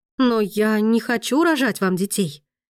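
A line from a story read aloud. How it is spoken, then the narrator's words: Exclamation. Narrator (Russian): воскликнула Дамиана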